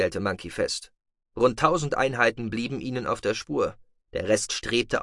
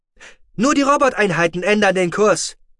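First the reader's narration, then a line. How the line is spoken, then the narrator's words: Excited shout. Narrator (German): rief der Orter aufgeregt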